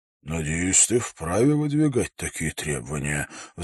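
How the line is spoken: Sighing. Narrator (Russian): вздохнул он

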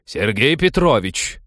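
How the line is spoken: Barked over the din. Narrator (Russian): рявкнула она, в легкую перекрыв их гам

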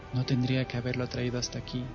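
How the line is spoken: Plain. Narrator (Spanish): dijo Calista

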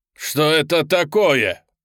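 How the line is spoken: Yelling. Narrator (Russian): завопил он

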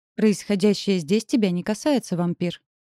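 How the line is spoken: Casual interjection. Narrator (Russian): встряла леди Лариса непринужденным тоном

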